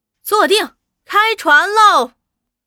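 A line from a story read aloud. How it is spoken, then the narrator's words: Calling out. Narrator (Chinese): 那小姑娘叫了声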